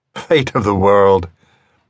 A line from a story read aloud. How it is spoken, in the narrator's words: The man laughed contemptuously